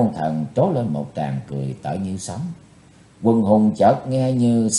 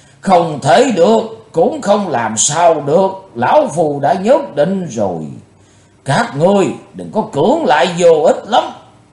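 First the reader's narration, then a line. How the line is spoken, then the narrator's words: Thunderous roar. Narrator (Vietnamese): Lão tà nói như trời gầm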